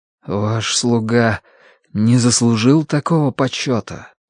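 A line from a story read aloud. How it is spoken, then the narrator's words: Forced out. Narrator (Russian): выдавил он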